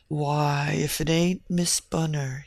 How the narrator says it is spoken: he said, in a low, thick tone

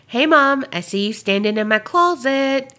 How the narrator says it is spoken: I hear my son yell out

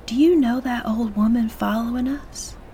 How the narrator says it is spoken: Angelique whispered in Brenda's ear

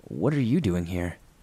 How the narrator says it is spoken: I calmly and instinctively answered and asked her

